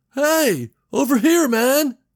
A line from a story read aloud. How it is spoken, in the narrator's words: On the bus roof, the man was shouting